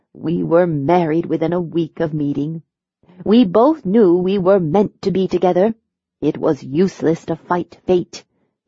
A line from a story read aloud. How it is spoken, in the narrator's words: Laughing softly, she continued